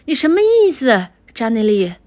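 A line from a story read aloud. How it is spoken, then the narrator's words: Shouting back. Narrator (Chinese): 乔邦尼高声的喊了回去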